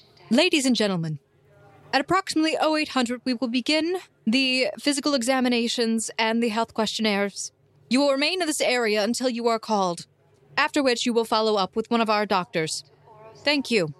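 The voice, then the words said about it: Commanding military officer voice. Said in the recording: “the woman in the military garb ... in a commanding voice.”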